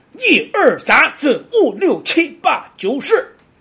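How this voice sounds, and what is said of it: Put-on Shandong accent, heavy fourth tones. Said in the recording (Chinese): “如果你想模仿山东话，只要把握住每个字，尽量念四声。然后都加重拍，就会很像 ... 用山东话来念”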